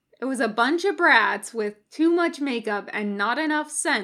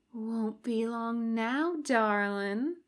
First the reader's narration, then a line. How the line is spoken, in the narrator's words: purred